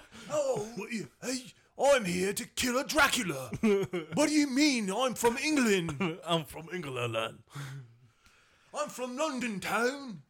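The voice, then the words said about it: Put-on English accent. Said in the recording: “I can I can do a better English accent ... that was even a better English accent”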